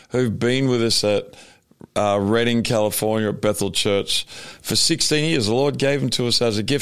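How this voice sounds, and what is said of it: Australian accent. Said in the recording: “you're still obviously Australian, you have the accent”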